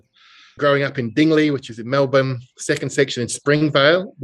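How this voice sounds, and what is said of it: Australian accent. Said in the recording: “You might be able to tell from my accent, I'm from Melbourne, Australia”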